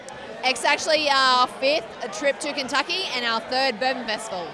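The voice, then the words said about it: Australian accent. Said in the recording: “Your accent tells me that you're not from around these parts ... I'm from Brisbane, Australia.”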